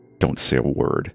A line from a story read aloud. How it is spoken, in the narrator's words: he grunted to the girl